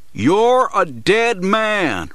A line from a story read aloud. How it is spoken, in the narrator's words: Rife shouts